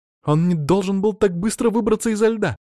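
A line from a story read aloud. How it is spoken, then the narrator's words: Exclamation. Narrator (Russian): воскликнула лидер их отряда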